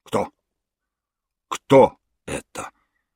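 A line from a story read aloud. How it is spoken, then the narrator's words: Hoarse whisper. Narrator (Russian): хрипло прошептал он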